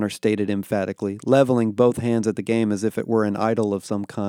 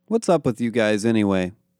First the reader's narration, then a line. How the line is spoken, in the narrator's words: Connor asked